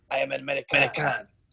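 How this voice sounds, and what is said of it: Put-on German accent. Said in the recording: “he has a German accent”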